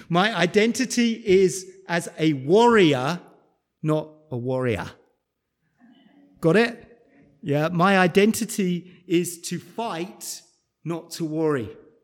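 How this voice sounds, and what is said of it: Speaker's own accent. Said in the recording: “in case you didn't catch my accent?”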